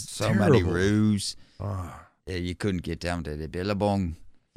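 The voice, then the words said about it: A bad put-on accent. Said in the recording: “bad impersonation”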